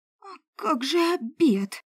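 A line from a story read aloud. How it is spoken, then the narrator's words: Growling. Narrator (Russian): зарычала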